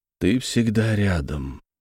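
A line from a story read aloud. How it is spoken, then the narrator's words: Quiet. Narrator (Russian): тихо сказал я браслету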